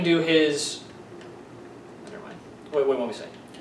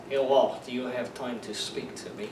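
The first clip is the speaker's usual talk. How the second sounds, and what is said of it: Put-on Russian accent. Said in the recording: “I can't do a Russian accent, can you? ... Sort of. ... pretend you're Vlad”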